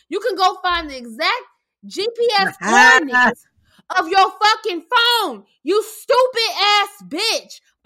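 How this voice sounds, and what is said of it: Angry yelling. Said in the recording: “I'm sorry for yelling, but I am pissed.”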